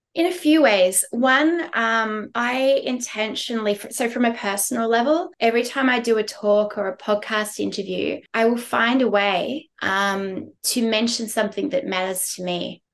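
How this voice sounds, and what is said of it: Hoarse voice. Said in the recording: “my voice is a bit hoarse. It's because 5 days ago, I screamed so loudly for the Matildas at the World Cup quarterfinal that I lost my voice”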